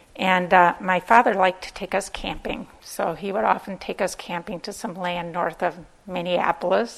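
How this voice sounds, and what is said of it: Minnesotan accent. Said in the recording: “my accent ... Some certain sentences come out like Minnesotan. I'm from Minnesota.”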